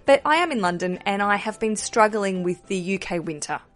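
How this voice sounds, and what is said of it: Australian accent. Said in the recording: “You might hear my accent and go, oh, Australian”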